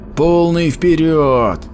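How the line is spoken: Shouting. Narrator (Russian): закричал банник

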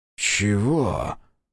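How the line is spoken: Breathless exhale. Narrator (Russian): выдохнул он

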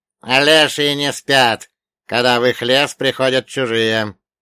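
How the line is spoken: Grumbling. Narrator (Russian): проворчал Черномор

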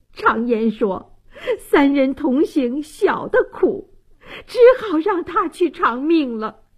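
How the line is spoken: Choking sobs. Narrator (Chinese): 王大妈泪流满面，泣不成声，哽咽道

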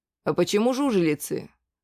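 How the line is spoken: Plain. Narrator (Russian): спросил

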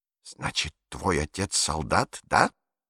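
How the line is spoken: Hiss. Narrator (Russian): прошипел фюрер

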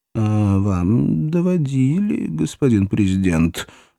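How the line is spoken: Timid objection. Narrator (Russian): робко возразил советник по национальной безопасности

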